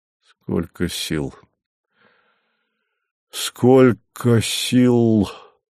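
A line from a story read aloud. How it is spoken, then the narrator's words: Muttered. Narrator (Russian): пробормотал он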